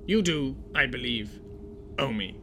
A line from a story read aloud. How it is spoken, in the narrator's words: Yane growled at Lagatha